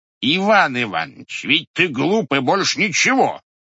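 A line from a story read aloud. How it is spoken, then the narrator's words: Loud. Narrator (Russian): громко сказал Григорий Григорьевич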